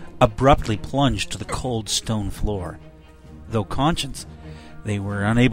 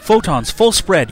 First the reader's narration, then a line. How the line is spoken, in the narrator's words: Quinn yelled